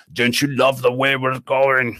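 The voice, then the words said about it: Imitates another person's voice. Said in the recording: “I need to work on my impression there.”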